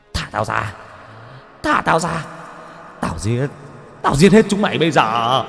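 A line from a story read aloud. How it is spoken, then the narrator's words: Scream. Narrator (Vietnamese): Thạnh gào lên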